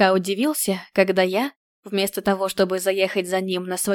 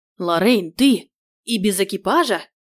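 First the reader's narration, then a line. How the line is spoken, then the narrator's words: Exclaiming man. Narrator (Russian): Сбегая по ступеням крыльца, воскликнул мой кавалер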